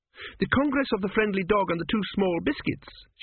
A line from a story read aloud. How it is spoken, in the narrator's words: she exclaimed